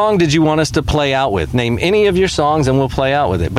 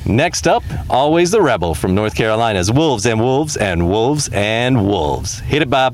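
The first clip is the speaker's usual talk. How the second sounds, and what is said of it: Radio announcer voice. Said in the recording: “you got to do it like announcer style ... do your radio voice.”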